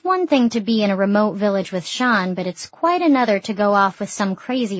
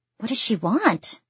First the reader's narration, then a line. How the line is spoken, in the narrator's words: I ask nervously